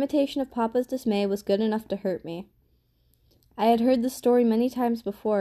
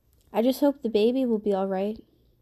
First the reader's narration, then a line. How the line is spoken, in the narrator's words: I said